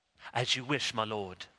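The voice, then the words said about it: Put-on British accent. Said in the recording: “with a nice British accent.”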